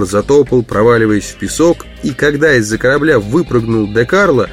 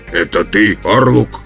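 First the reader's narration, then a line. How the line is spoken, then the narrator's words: Wooden voice. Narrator (Russian): начал он деревянным голосом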